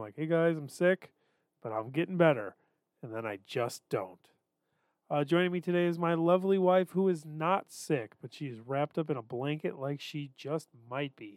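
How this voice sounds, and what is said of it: Congested, stuffy-nosed voice. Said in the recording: “I was sick. So Yeah, if you can hear it in my voice, all of my snot is resting somewhere in between my nose and my throat”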